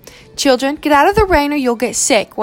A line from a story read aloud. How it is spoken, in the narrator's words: one of the teachers yelled at the students from under an awning